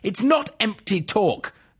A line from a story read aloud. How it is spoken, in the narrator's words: the man snapped